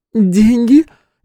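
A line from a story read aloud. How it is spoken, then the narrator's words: Hysterical laughter. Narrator (Russian): Девушка неожиданно истерично рассмеялась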